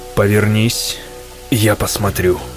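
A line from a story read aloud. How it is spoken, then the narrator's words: Commanding tone. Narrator (Russian): приказывающим тоном произнес он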